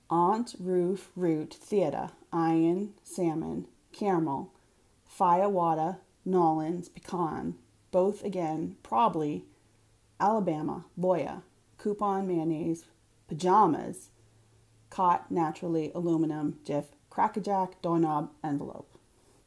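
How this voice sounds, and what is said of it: Boston accent. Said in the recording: “In Boston, or if I were drinking with my siblings, this is when my accent comes out”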